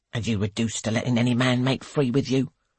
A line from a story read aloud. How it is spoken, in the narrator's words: says Mrs